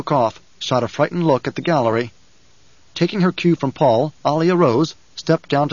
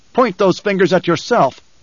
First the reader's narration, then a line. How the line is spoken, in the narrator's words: Paul shouted